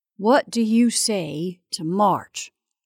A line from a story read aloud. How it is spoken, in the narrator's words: he said very slowly